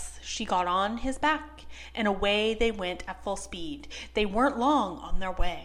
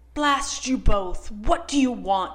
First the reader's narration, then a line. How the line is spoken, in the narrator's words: roared at them, and his bitter blast made them shiver